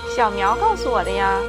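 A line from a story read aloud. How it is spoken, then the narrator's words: Giggling. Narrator (Chinese): 珍妮弗咯咯地笑着说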